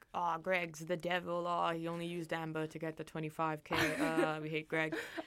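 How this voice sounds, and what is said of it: Put-on accent. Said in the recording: “I like how you adopted an accent.”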